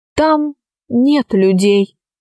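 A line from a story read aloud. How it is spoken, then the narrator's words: Plain. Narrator (Russian): ответил профессор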